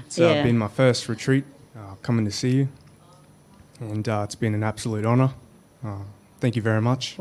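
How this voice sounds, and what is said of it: Australian accent. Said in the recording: “the accent, I thought, from Australia”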